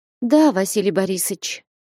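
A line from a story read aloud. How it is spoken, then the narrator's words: Sighing. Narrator (Russian): вздохнула Манефа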